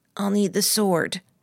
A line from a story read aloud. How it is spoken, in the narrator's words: I croaked